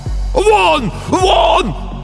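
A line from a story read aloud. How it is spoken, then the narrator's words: Shouting. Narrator (Russian): кричал писатель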